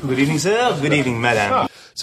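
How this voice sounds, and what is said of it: Over-the-top stereotyped French waiter accent. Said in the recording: “here's the waiter, and he's French, and he's played by Terry Jones, and he's obviously it's a ridiculous, over-the-top, stereotype, cliched French waiter”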